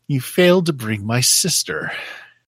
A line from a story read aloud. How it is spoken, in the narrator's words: her voice, while it seems she whispers, echoes through the chamber, and she says